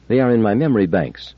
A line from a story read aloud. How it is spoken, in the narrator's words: said Daniil solemnly